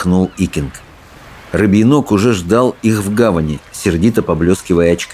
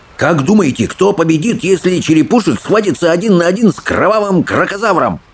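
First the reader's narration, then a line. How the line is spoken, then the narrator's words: Joyful question, young boar. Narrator (Russian): радостно вопрошал кабанчик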